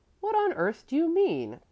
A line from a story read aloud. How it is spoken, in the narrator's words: Kurt cried out, full of indignation